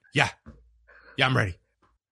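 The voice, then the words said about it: Imitates another person's voice. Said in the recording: “That was a pretty good impression. Your English may have been actually a bit too understandable to be a good Stipe Miocic impression”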